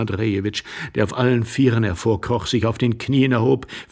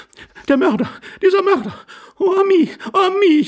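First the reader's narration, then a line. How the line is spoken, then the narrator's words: Wailing woman. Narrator (German): jammerte die Dame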